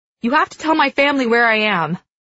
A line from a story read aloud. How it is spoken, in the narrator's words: I blurt out